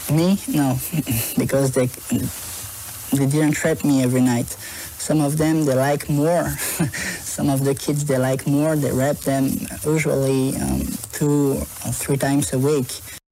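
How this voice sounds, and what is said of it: French accent, not American. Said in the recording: “Not that's someone with an American accent. ... That's French AF.”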